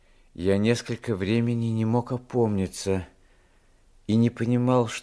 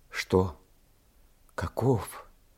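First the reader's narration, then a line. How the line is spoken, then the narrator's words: Whisper. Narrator (Russian): произнес по шепту голос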